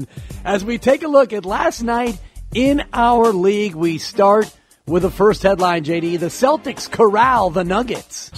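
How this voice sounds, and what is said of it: Howard Cosell impression. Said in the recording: “As I do my guru doing Howard Cosell ... It's a two-way impersonation.”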